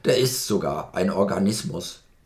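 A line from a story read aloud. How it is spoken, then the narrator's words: Grunting. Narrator (German): grunzte der Geysir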